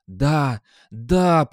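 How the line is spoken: Hoarse rasp. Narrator (Russian): прохрипел

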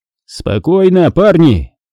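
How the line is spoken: Shouted. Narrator (Russian): крикнул капитан, предварительно вынув фонарик изо рта

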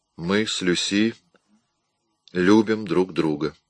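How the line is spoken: Even, level voice. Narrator (Russian): ровным голосом ответил он

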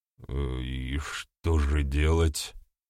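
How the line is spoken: Quiet question. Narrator (Russian): тихо спросил один из них

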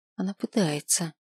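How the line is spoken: Barely audible whisper. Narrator (Russian): чуть слышно шепнула в ответ

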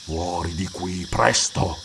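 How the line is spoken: Chilling urgent whisper. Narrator (Italian): incitò con un bisbiglio che congelò il sangue

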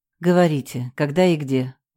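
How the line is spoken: Sighing. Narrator (Russian): вздохнула я

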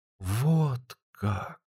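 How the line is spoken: Amazed drawl. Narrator (Russian): протянула она изумленно

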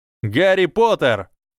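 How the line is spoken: Shouting. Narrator (Russian): закричал то ли Фред, то ли Джордж Уизли

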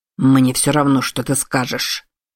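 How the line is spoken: Growled. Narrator (Russian): прорычал он

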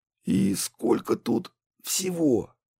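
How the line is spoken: Hoarse, fearful, agitated. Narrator (Russian): спросил глава города хриплым от страха и волнения голосом

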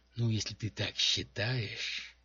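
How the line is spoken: Doubtful drawl. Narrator (Russian): с сомнением протянул Шмирнов

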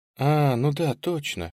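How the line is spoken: Sigh. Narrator (Russian): вздохнула она

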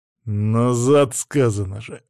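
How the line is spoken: Growled. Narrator (Russian): рыкнул я

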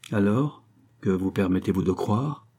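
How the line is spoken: Defiant question. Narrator (French): demanda-t-il d'un ton de défi

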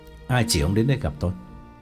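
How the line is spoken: Cold question. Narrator (Vietnamese): lạnh lùng hỏi

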